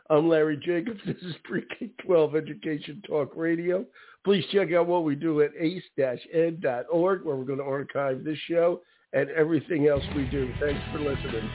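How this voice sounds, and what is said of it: Raspy, hoarse voice. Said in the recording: “raspy voice, which I never have ... with my raspy voice. I don't know what's going on, but for some reason it's like that right now.”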